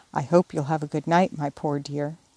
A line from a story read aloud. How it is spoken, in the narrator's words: whispering tenderly